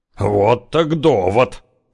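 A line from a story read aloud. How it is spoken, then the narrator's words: Snorting. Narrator (Russian): хмыкнул Зяблик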